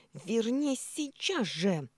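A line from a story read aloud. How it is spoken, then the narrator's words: Shriek. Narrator (Russian): завизжало отражение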